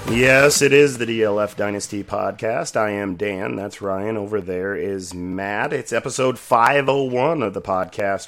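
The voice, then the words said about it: Nasal, deep, sick-sounding voice. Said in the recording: “Feeling a little under the weather, a little nasally. Got a little bit of a deep voice this week”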